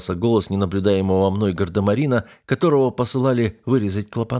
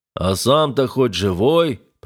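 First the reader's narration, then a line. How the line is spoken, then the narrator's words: Bass voice, swearing sailor. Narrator (Russian): пробасил боцман, добавляя флотские матерные загогулины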